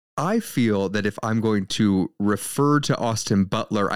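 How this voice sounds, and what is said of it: Usual voice. Nothing is said of it.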